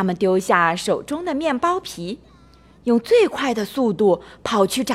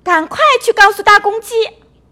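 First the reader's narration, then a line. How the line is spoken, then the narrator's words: Shouting together. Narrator (Chinese): 米莉和茉莉一起喊道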